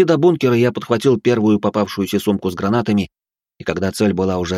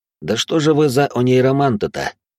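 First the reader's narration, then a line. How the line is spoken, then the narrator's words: Sighing. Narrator (Russian): вздохнул я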